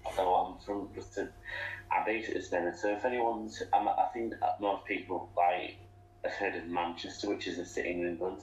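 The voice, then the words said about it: English accent. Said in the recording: “you may be able to tell from my accent, but I'm from, well, the UK, specifically England”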